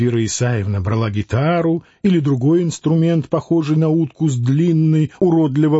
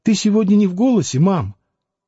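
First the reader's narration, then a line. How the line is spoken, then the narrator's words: Very tender question. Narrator (Russian): спрашивала очень ласково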